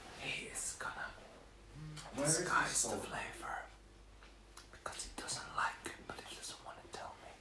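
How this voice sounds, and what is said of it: Whispering. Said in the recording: “I was whispering, though.”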